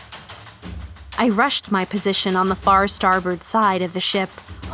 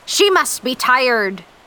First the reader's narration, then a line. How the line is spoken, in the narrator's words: Captain Ahab shouted over the sounds of the ocean